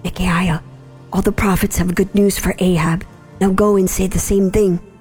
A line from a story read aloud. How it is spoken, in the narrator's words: the messenger who went to get Micaiah whispered